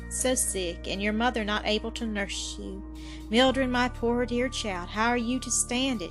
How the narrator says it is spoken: sighed

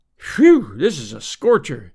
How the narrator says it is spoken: he exclaimed

